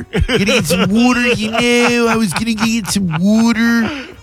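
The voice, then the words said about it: Put-on Philadelphia accent. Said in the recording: “A Philadelphia accent ... Such a stupid accent.”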